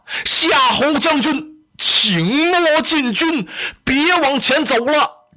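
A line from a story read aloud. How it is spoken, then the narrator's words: Urgent shout. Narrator (Chinese): 着急，我喊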